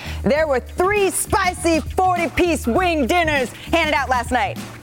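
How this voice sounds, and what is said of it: Impression of Big Perk. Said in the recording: “my best Big Perk impression”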